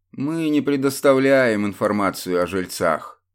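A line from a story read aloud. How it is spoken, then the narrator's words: Lazy reply. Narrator (Russian): лениво ответил тот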